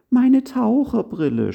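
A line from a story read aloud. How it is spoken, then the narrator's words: Tearful sobbing, barely intelligible. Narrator (German): schluchzte mit tränenerstickter Stimme, sodass man sie kaum verstehen konnte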